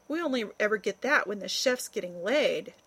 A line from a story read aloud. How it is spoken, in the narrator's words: chuckled Rodney